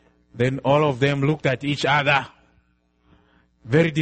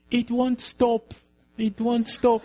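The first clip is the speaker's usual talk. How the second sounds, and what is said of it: Weak, feeble voice. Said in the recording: “in a weak voice”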